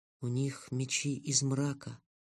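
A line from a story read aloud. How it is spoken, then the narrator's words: Very quiet kitten voice. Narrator (Russian): очень тихо сказал котенок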